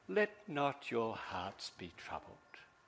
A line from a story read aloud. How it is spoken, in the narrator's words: tenderly he says